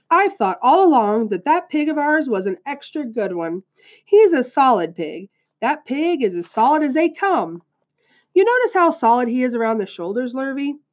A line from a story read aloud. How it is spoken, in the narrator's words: he said in an important voice